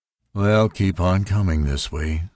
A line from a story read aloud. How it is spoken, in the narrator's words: said Tauri wearily